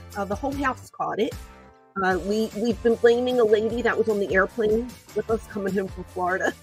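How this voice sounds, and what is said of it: Muffled, sick-sounding voice. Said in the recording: “I have a flu. So, excuse me if my voice sounds a little muffled.”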